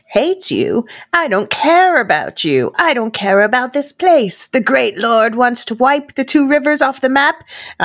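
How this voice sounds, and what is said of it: Put-on accent for a character. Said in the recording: “I don't know why I'm doing this accent.”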